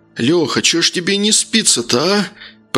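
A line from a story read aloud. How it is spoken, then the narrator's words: Hoarse yawning wheeze. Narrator (Russian): просипел тот, позёвывая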